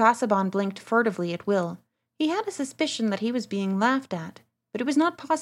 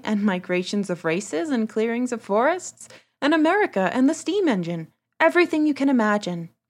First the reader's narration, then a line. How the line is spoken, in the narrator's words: said Will, laughing